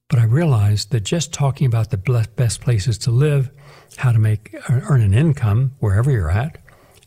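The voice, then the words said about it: Sore, hoarse voice. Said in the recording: “my voice is a little sore or hoarse.”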